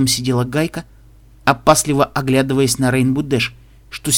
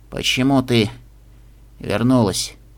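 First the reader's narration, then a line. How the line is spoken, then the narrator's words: Hoarse question. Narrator (Russian): хрипло спросил Джерри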